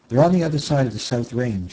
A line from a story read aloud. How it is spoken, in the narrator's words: she said quickly